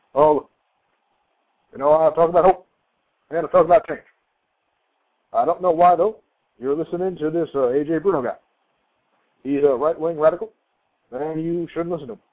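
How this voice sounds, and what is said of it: Barack Obama impression. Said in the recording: “I think I do a pretty good Barack Hussein Obama... I do a much better Obama.”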